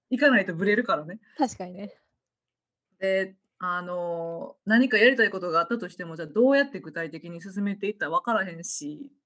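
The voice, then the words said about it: Kansai dialect Japanese speech. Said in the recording (Japanese): “そこも関西弁なんだ ... もう全部関西弁で”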